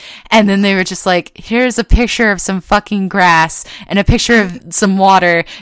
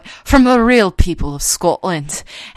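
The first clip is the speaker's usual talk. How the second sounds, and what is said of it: Imitated Scottish accent. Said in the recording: “this lady with a Scottish accent”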